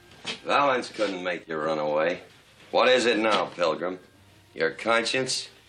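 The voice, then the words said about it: John Wayne's distinctive drawl. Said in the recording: “John Wayne is the American cowboy. From that walk to that distinctive drawl”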